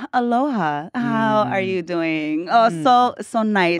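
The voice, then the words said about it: Put-on Hawaiian pidgin accent, very vowely. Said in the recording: “pigeon accents ... Oh, very vowely. It's very vowels. A lot of O's, O's, and A's sounds.”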